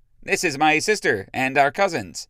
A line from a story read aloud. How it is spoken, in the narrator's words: Rémy noticed and said too loudly